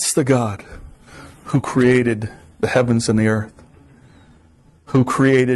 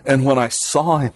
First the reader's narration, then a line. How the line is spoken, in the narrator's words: I cried